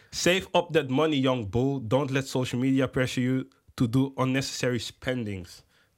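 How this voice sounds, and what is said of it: Put-on accent reading English quote. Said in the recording (Dutch): “Je wil het echt met die accent gooien.”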